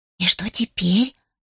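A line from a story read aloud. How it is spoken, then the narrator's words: Gentle whispered question. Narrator (Russian): шепотом спросила, не желая тревожить очаровательное создание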